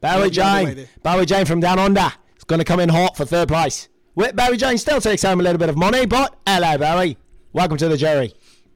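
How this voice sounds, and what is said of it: Put-on Australian accent. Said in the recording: “my Australian accent has gotten so much better throughout this season ... That was the best one so far.”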